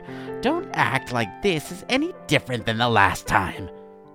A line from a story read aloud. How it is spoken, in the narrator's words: Scrutius scoffed